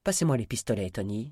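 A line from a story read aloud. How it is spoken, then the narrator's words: Plain. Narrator (French): dit Kit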